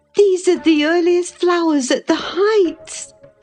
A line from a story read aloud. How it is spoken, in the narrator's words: she exclaimed